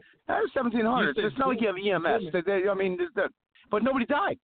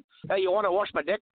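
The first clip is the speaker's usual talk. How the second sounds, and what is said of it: Put-on New Zealand accent. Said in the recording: “New Zealand accent”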